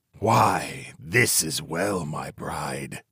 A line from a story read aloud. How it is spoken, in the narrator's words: he exclaimed with a sneer